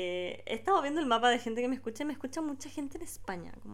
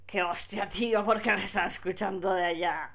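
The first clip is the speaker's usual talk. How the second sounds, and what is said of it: Put-on Spain Spanish accent. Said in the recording (Spanish): “Me sale con el pico el acento español.”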